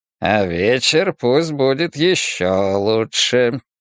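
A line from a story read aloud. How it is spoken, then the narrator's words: Purring, teasing insinuation. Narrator (Russian): промурлыкал Фермин, явно намекая на мое свидание с Беа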